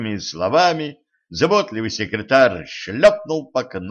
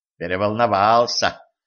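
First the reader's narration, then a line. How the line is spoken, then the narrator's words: Sympathetic sigh. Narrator (Russian): сочувственно вздохнул Алекс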